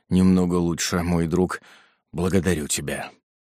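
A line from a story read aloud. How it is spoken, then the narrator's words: Weak reply. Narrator (Russian): Господин Марамбо отвечал слабым голосом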